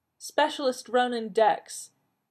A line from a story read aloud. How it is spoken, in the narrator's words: the head counselor, the one from River Clan, said in a clear, carrying voice